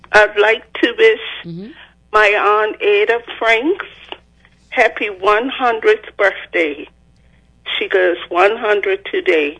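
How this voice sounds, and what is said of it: Breathless, out-of-breath speech. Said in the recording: “I'm out of breath.”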